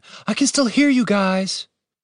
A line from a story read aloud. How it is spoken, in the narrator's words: shouted Julian